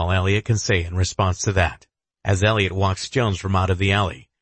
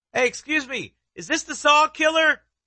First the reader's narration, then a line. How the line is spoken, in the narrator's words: one young reporter shouts